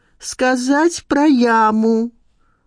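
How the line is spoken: Reading aloud loudly. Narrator (Russian): Надежда Николаевна громко прочитала

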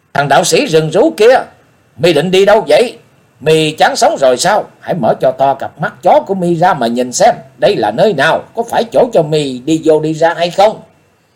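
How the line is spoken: Loud cursing. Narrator (Vietnamese): đạo sĩ canh cửa lớn tiếng chửi mắng

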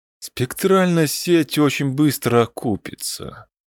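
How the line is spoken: Dejected, sinking voice. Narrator (Russian): упавшим голосом сказал Оксати

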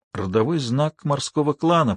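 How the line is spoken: Whisper. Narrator (Russian): прошептала Алиса

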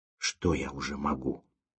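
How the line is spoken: Whisper. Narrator (Russian): прошептал Серебряков

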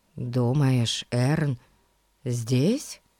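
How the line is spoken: Whisper in the ear. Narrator (Russian): прошептал Ларри на ухо Фати

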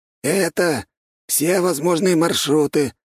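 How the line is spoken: Hoarse. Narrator (Russian): хриплым голосом сказал голова

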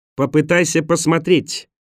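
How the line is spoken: Indignant shout. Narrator (Russian): почти так же возмущенно крикнула она

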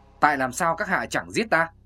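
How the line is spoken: Hissing. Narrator (Vietnamese): Kinh Vô Mạng rít giọng

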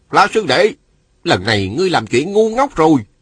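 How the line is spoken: Smiling speech. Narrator (Vietnamese): Ngô Bình vào theo mỉm cười nói

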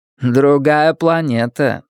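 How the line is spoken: Plain. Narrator (Russian): сказала Кассандра

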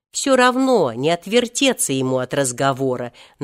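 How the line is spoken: Deliberately loud. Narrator (Russian): нарочно громко сказал Волька

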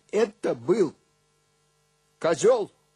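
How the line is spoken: Loud and calm. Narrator (Russian): сказал громко и спокойно

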